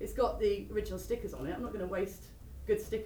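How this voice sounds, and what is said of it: Usual voice. Nothing is said of it.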